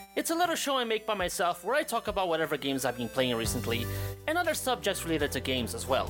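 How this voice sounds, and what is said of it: Unusual accent. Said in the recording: “my weird accent”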